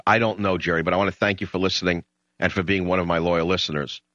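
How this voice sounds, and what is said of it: New York accent. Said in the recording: “my New York brogue, despite my tendency towards emotionalism when I get excited”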